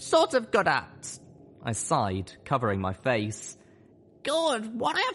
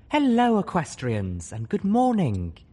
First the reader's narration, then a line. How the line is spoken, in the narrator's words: she said sweetly